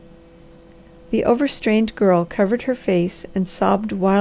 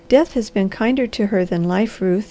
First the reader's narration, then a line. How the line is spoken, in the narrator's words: he said